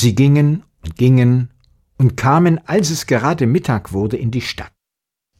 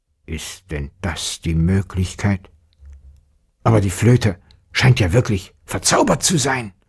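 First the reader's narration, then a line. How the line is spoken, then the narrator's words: Father grumbling into beard. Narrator (German): brummte der Vater in seinen Bart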